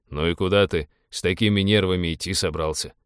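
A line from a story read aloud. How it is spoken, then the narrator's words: Wry snort. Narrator (Russian): хмыкнул пилот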